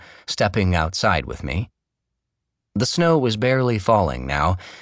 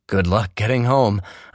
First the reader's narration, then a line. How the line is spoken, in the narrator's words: I said